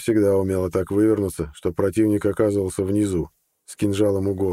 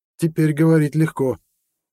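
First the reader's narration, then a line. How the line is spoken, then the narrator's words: Angry snort. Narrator (Russian): зло фыркнула женщина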